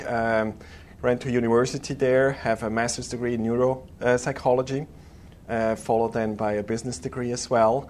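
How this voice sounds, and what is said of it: Swiss accented English. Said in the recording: “You might hear the accent, so I'm originally from Switzerland, Zurich.”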